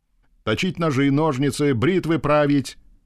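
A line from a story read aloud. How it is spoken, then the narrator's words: Nearby shouting baritone bass. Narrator (Russian): закричал вблизи баритональный бас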